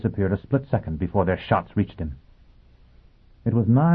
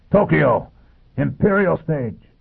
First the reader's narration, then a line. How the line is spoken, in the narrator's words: he shouted